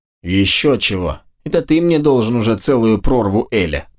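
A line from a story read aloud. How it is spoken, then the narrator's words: Grumbling. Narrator (Russian): проворчала его правая голова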